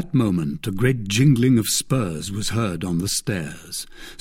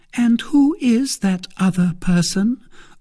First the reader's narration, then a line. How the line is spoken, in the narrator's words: asked Milady warmly